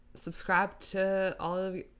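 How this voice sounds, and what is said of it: Put-on Texas Southern accent. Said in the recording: “Did I just say that with a Texas accent? ... A Southern accent.”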